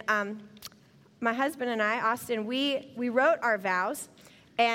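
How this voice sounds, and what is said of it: Usual voice. Nothing is said of it.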